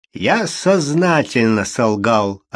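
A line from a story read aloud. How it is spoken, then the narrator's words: Plain. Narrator (Russian): ответил он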